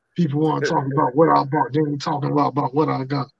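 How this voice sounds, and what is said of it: Imitates another person's voice. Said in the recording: “my junkyard dog impersonation”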